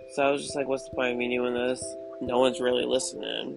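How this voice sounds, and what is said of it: Congested, allergy-affected voice. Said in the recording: “I apologize for my voice right now. My allergies are really bad.”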